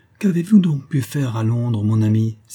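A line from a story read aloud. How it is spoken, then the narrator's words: Exclaimed. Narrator (French): s'écria-t-elle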